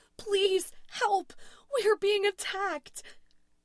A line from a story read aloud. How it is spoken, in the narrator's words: Louise's voice was shaking as she screamed into her phone